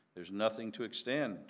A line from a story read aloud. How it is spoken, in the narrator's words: Tom answered